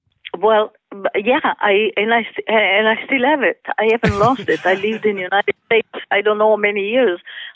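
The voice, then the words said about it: Italian accent. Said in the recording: “your lovely Italian accent”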